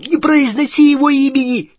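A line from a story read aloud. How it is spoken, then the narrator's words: Angry shout from tent. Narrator (Russian): сердито крикнул из палатки Рон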